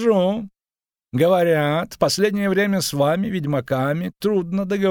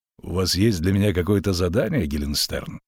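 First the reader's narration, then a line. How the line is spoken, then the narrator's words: Dry question. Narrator (Russian): сухо спросил ведьмак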